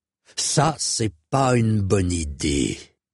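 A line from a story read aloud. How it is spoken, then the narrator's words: Man's growl. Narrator (French): gronda l'homme au torque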